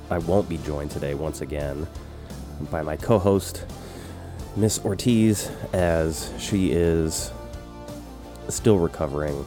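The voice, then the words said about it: Very nasal, throaty congested voice. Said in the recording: “I am still very nasal ... my voice is extra throaty, extra nasal.”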